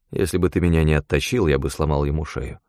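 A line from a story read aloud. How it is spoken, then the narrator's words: Grim reply. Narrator (Russian): мрачно ответил я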